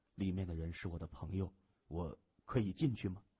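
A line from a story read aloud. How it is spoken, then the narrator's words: Soft, gentle question. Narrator (Chinese): 谢文东，他轻声问着护士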